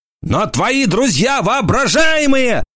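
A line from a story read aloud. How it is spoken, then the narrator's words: Yelling. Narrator (Russian): заорал он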